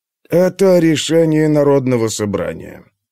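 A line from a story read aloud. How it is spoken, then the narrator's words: Dry retort. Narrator (Russian): сухо парировал Перикл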